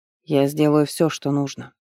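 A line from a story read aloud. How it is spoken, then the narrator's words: Muffled, hollow voice. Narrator (Russian): глухо проговорил Хефер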